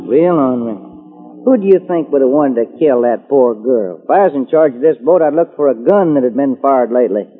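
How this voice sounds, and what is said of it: Texas accent. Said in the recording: “do you ever get tired of that accent? ... I just talk the way folks talk in Texas. ... That's Texas talk.”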